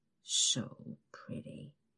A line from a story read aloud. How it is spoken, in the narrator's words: he mumbles